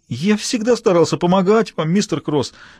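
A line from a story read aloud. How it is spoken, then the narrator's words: Whiny, tearful. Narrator (Russian): сказал Харви плаксивым голосом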